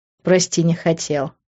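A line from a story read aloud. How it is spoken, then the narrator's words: Laughing. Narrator (Russian): рассмеялся Грант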